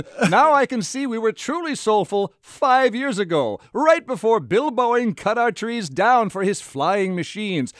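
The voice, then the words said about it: Old-timey English newsreel accent. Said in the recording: “speaks in that accent. ... some kind of English fop? I don't understand that accent. ... I was going for kind of World War II newsreel”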